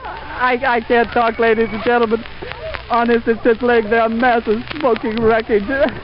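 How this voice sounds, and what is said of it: Breathless, voice giving out. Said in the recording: “Honestly, I can hardly breathe. ... I've lost my voice.”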